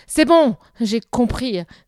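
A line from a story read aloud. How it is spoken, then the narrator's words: Grumbled. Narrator (French): grommela-t-il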